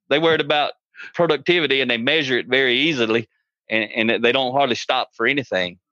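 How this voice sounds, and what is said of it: Southern US country accent. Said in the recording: “I live in Atlanta, Georgia. You probably tell by my accent. ... I speak English and country.”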